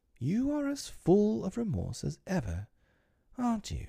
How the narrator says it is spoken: she said timidly

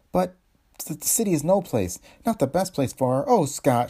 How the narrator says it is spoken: cried

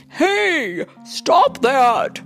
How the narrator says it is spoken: yelled the gardener

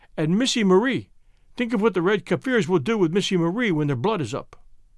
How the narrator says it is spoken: croaked

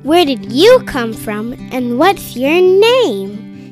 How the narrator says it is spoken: asked Savannah

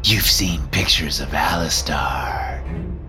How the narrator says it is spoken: purrs as he says the name

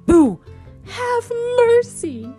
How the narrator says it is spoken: screamed George

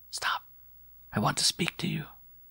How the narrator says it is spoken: she whispered between her teeth

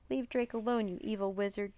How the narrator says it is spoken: Jean cried

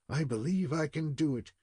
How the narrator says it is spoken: he muttered more than once

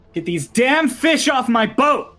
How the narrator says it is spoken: Lorelei shouts

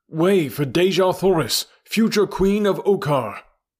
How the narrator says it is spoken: cried

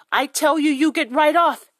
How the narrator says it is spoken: cried

